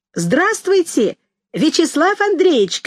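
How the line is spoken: Shout. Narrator (Russian): крикнула я

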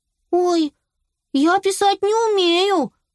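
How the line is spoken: Exclaimed. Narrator (Russian): воскликнула Белла

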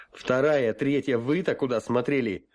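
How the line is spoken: Barked shout. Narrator (Russian): рявкнул я

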